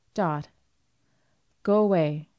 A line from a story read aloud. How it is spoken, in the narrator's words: she said coldly